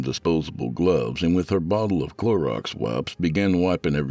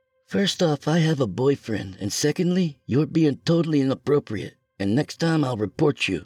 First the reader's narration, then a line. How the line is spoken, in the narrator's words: she exclaimed